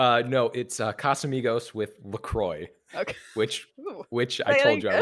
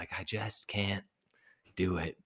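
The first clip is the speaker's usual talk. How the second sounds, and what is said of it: Good impression of a film character. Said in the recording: “That's such a good impression.”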